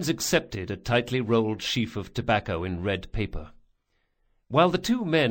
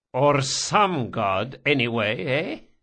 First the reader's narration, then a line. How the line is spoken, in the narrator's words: Barsavi chuckled